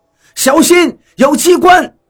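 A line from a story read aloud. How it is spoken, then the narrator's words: Sudden alarmed cry. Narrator (Chinese): 张广川脸色大变，猛然惊叫一声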